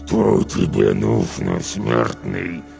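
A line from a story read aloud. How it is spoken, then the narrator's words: Growling through closed lips. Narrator (Russian): прорычал он, стараясь не разжимать губ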